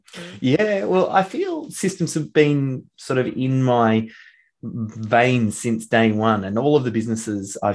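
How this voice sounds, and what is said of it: Australian accent. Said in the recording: “I really love your Australian accent.”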